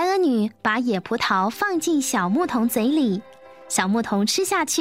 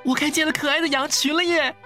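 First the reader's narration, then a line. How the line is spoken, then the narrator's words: Laughing, joyful singing child. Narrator (Chinese): 小牧童又跳又笑，唱起最快乐的歌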